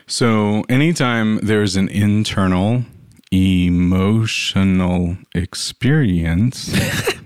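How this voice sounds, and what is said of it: Deliberately very slow speech. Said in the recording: “say that slower ... is that too slow?”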